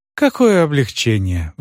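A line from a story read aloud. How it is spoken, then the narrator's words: Relieved sigh. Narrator (Russian): вздохнула миссис Оливер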